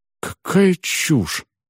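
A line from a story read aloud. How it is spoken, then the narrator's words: Upset mutter. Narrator (Russian): расстроенно пробормотал я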